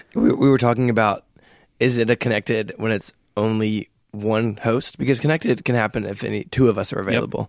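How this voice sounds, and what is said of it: Hoarse, weak laryngitis-affected voice. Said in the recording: “a man whose voice is not joining me ... You sound so healthy today. ... I have laryngitis ... I could only whisper, so I'm improving, but it's still pretty bad.”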